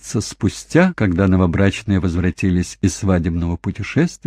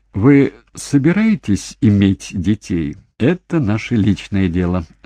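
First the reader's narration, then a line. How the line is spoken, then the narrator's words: Laughing. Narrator (Russian): засмеялся Питер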